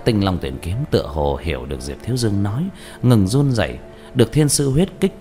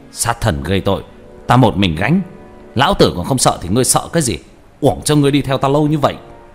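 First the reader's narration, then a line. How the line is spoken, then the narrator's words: Shout. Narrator (Vietnamese): Diệp Thiếu Dương quát lên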